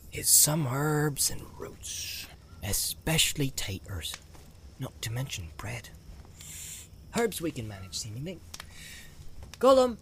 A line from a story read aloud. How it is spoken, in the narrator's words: he called softly